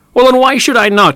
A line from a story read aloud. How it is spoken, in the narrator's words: shouted the voice